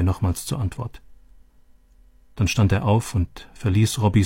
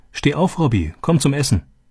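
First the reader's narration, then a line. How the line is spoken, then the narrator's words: Calling. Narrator (German): rief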